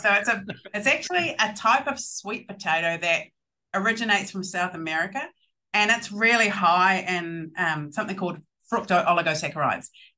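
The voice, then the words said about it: Speaks with a noticeable accent. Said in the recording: “it sounds awesome in your accent”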